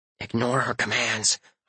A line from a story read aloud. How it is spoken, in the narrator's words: whispered to myself